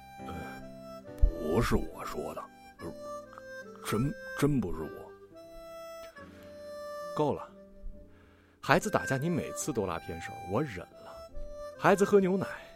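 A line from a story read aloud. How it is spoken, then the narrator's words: Low, timid mumbling. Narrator (Chinese): 老马陪着笑脸低声嗫嚅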